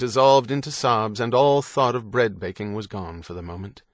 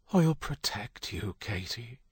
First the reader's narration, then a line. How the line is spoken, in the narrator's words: he whispered